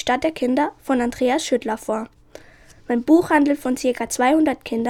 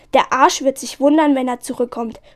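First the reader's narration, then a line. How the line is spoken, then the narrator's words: Shouted. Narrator (German): schrie Kolja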